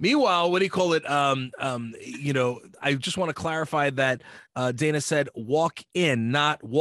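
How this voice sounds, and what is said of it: Usual voice. Nothing is said of it.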